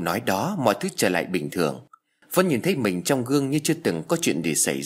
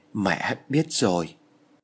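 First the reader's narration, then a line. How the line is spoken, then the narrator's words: Trembling voice. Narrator (Vietnamese): Vân run rẩy nói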